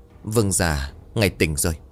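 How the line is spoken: Trembling voice. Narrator (Vietnamese): Người hầu cận giọng run rẩy

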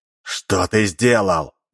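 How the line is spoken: Half spoken, half growled. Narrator (Russian): Коска наполовину проговорил, а частично прорычал вопрос

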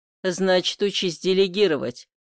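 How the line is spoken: Father-in-law's wry snort. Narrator (Russian): хмыкнул тесть

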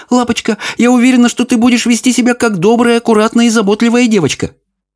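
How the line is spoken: Rapid chattering. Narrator (Russian): миссис Бейкер тараторила

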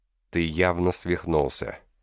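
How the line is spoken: Flat even tone. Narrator (Russian): проговорил он ровным тоном

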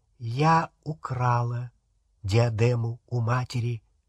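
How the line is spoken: Quiet. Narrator (Russian): она тихо сказала

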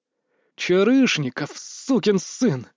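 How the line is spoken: Growl. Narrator (Russian): прорычал

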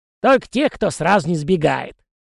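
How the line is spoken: Wry snort. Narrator (Russian): хмыкнула она

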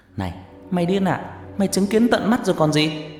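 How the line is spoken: Shouting in someone's face. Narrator (Vietnamese): Phú hét vào mặt Bảo

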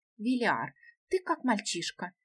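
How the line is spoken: Breathless passionate whisper. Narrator (Russian): тяжело дыша, прошептала Гела, уже сгорая от желания

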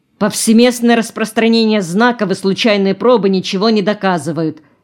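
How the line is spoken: Sharp. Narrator (Russian): резко сказал

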